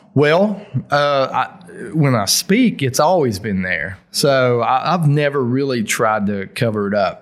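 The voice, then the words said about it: Appalachian accent. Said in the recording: “your Appalachian accent”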